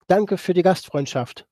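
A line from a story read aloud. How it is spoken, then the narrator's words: Called out to people. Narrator (German): rief ich den Leuten noch zu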